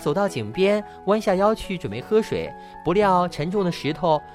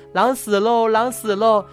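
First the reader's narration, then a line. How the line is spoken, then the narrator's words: Joyful shouting. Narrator (Chinese): 一边叫，高高兴兴地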